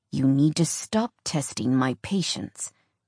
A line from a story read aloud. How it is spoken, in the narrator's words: he said through gritted teeth